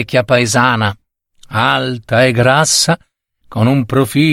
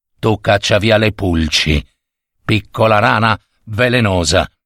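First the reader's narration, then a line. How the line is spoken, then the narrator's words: Plain. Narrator (Italian): rispose il servo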